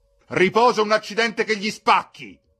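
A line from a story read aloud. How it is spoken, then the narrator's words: Shouting. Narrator (Italian): gridò Al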